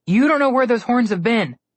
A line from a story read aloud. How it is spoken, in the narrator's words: Connor called out